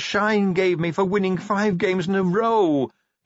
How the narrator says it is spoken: he wailed

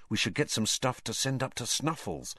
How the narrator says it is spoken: Harry muttered

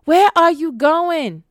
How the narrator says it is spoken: shouted after her

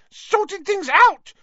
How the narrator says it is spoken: squealed Pettigrew, looking wildly about him once more

